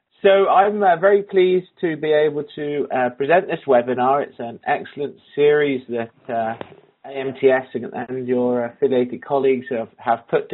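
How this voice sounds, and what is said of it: Non-American English accent. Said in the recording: “my very un-American accent”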